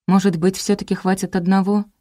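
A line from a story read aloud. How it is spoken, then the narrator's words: Sighing. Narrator (Russian): вздохнула я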